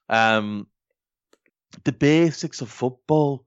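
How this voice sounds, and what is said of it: Attempted Yorkshire accent, sounds Liverpudlian. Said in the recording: “That's not my Yorkshire accent. ... That came out very Beatle-ish ... It did a bit.”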